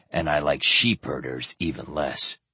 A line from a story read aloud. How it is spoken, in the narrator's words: Keurig muttered